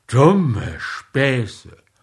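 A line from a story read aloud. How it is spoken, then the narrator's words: Grumbling. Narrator (German): brummte er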